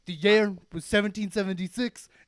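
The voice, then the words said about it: Attempted Trump impression sounding like Bernie Sanders. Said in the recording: “I can't do the Trump voice... Now I'm doing Bernie... you're totally doing Bernie. You're way off.”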